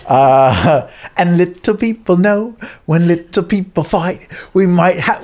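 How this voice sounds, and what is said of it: Sung in a put-on British accent. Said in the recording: “Why am I doing a British accent?”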